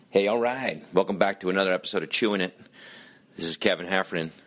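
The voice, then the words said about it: Strained, nearly lost voice. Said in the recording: “I've lost my voice... I'm almost lost my voice”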